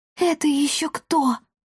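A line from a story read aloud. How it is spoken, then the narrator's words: Hoarse whisper. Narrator (Russian): хрипло прошептала девочка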